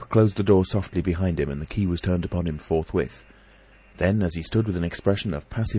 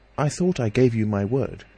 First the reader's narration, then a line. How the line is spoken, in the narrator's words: he said